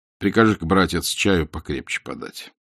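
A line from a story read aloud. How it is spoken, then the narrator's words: Weary. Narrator (Russian): устало сказал Бахтин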